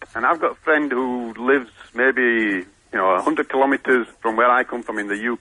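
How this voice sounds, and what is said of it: Yorkshire accent. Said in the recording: “I've got a Yorkshire accent”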